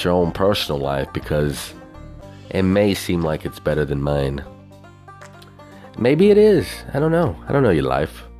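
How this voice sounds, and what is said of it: Southern twang accent. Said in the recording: “that hobo with a southern twang”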